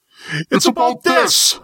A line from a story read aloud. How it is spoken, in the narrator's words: screamed